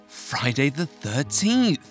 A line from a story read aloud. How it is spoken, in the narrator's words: gasped Marianne